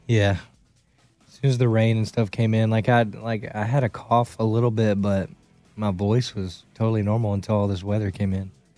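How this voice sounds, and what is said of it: Hoarse, strained voice. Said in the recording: “My voice is going. This weather is kicking my butt. ... Allergies? ... That's why my voice is so hoarse.”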